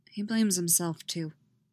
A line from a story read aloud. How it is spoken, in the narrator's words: Styles says, his voice quiet